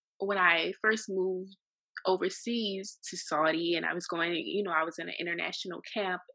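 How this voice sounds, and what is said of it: Strong New Orleans Louisiana accent. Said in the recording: “From New Orleans, Louisiana, and I know that I have a strong accent”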